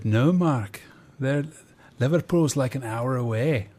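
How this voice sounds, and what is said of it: Poorly done put-on accent. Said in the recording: “That's a terrible accent.”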